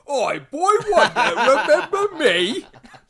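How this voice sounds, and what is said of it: Put-on Cockney accent. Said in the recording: “they've got to have like this like Cockney accent”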